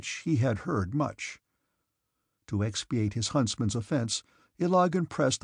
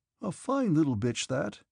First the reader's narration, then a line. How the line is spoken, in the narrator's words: said he in a careless tone